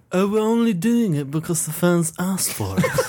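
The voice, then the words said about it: Imitates another person's voice. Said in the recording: “the Molyneux accent”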